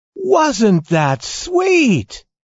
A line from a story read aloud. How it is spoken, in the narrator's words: cried all the dolls